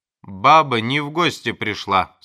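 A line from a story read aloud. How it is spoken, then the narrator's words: Angry. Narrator (Russian): сказал сердито доктор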